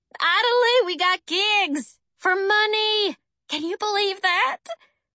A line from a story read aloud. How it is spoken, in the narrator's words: I squealed